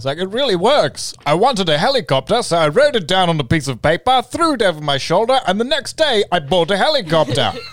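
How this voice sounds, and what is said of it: Matt Berry impression, ridiculous voice. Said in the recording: “Matt Berry with his ridiculous voice ... That's a really, really good impression.”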